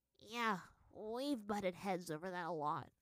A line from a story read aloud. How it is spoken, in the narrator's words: sighed